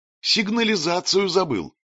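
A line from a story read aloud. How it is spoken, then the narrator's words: Cheerful shout. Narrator (Russian): весело крикнула ему Улита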